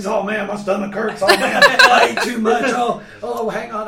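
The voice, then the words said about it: Imitates other people's voices. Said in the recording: “Who's that impression of? ... that's just a generic everybody conglomeration of the whole band. Yeah, it's a little bit of Trey, David,”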